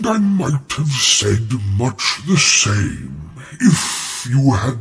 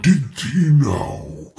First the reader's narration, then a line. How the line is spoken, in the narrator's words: rumbled Treebeard